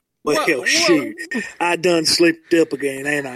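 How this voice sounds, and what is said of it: Put-on Southern US drawl. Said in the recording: “southern sound to you ... It comes out here and there ... for being a southern boy”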